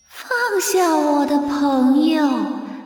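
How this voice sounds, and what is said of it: Eerie, spine-chilling ghost voice. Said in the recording (Chinese): “一个奇形怪状的东西用令人毛骨悚然的声音说”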